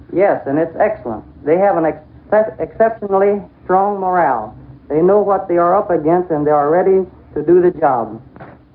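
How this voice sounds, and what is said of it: Southern American accent. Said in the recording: “that southern accent”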